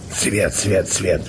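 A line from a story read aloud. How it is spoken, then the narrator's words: Hoarse wheeze. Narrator (Russian): просипел Емельян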